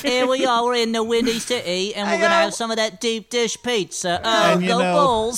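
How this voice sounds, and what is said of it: Exaggerated heavy Chicago accent. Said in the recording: “that's a pretty heavy Chicago accent”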